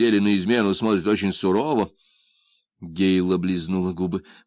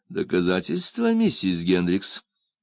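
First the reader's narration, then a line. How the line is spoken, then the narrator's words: Asked insinuatingly. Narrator (Russian): вкрадчиво спросил Мак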